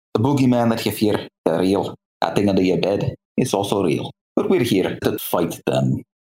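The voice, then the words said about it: Scottish accent. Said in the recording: “accent work for Angus. I'm a sucker for a good Scottish accent.”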